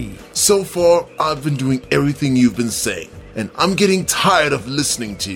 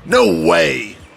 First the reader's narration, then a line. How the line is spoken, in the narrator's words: replied Dee crossly